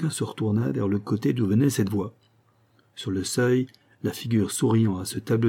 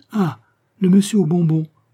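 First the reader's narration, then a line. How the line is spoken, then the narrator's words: Young boy exclaiming. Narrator (French): s'écria le jeune Toussaint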